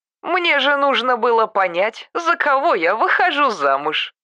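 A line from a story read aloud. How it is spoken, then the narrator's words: Wife laughing. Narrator (Russian): засмеялась супруга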